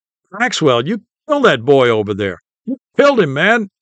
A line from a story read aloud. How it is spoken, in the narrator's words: all the secondary players were excitedly saying